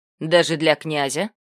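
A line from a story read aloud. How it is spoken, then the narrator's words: Snide question. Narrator (Russian): ехидно поинтересовался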